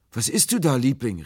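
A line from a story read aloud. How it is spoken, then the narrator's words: Calling out while landing. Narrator (German): rief, als ich an Land sprang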